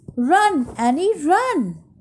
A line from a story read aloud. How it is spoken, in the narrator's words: cried Jack